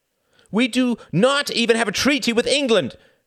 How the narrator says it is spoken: cried Benes heatedly

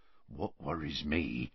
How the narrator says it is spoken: said Hagrid, lowering his voice

